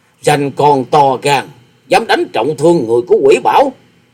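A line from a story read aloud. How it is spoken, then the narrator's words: Old man's snort, shout. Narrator (Vietnamese): lão quái nhân chợt hừ một tiếng rồi quát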